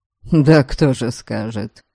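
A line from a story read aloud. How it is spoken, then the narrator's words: Quiet snort. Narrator (Russian): Дориан негромко хмыкнул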